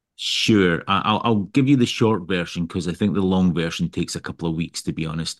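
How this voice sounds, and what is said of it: Scottish accent. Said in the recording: “I started out life in Scotland, you can tell with my accent”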